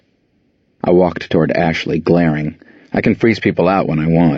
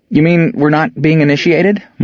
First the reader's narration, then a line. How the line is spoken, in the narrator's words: Melissa squeaked